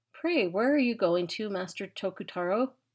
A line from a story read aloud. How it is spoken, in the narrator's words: said she